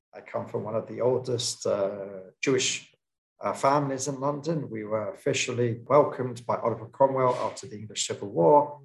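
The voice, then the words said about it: London English accent. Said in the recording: “as you can probably tell from my accent, from London”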